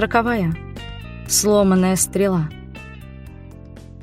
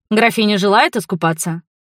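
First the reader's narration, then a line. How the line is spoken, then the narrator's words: Sailor's cheerful question. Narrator (Russian): весело спросил у меня матрос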